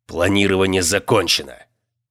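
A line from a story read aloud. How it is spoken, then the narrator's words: Harsh bark. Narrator (Russian): рявкнул Норрис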